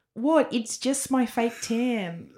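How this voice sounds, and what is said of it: Put-on New Zealand accent. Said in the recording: “Can you do a New Zealand accent?”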